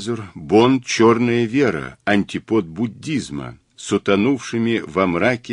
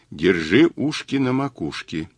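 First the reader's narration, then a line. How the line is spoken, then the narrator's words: Quiet. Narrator (Russian): тихо сказал Мазур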